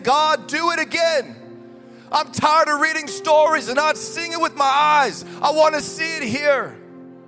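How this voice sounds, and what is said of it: Shouting, emphatic preaching voice. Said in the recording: “I'm shouting, but I'm happy.”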